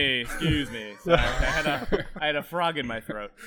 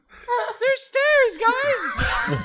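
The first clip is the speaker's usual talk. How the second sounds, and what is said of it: Put-on female voice. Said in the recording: “my female voice sounds like this”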